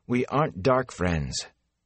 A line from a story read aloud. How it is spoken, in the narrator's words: For the 100th time, Egwene said wearily